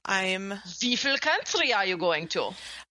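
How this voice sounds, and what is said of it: Terrible dorky fake German accent. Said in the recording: “With a really terrible, dorky, ... Accent. ... Bad Germany.”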